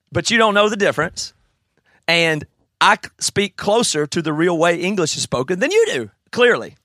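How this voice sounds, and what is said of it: Southern US accent, sometimes mistaken English. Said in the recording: “people mistake my accent for English accent”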